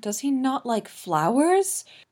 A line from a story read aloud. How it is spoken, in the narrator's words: Victor wails